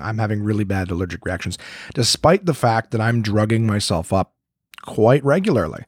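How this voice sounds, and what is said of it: Hoarse, congested voice. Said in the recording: “my voice is a little bit screwed up this week, and the reason being is that I have horrible ragweed allergies ... my throat's fucked. My sinuses are screwed. I'm coughing.”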